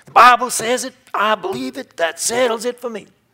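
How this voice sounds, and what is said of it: Put-on Southern preacher accent. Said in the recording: “It's my Southern accent.”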